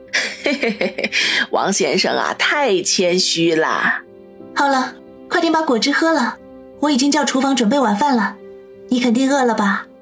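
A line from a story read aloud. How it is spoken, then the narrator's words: Interrupting. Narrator (Chinese): 林雪飞打断吴妈的话，说道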